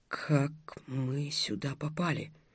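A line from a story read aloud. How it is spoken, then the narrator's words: Whispered question. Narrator (Russian): шепотом спросила Дарья вторая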